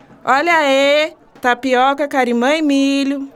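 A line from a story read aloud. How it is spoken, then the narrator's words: Shouting. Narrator (Portuguese): gritando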